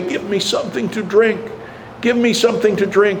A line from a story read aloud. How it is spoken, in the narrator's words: continue to plead